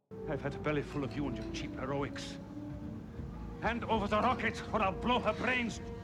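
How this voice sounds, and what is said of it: Bad, overacted German accent. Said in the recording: “Bad German Accent ... overacting”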